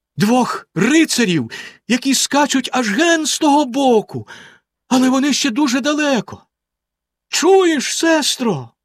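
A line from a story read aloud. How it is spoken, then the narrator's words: Exclaimed. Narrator (Ukrainian): вигукнула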